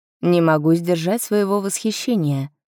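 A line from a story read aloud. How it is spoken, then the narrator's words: Plain. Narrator (Russian): сказал он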